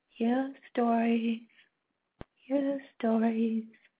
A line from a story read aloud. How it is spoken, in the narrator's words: Feeling foolish, I mumbled into the darkness